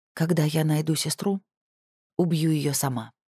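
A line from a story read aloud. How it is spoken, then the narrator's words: Quiet. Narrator (Russian): тихо произнесла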